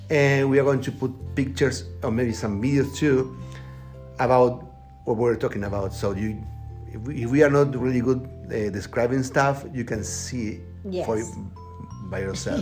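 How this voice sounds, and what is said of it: Strong non-native English accent. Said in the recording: “we have a strong accent, like you can tell”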